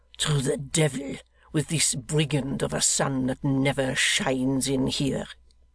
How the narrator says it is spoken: growled

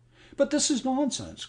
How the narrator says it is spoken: cried James

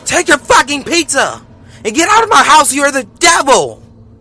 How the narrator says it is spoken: She yelled

